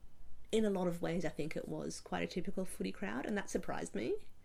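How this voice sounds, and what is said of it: Hoarse, strained voice. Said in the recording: “I'm losing my voice a little bit at the moment”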